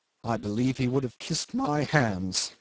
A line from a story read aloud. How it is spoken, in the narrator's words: said Jim savagely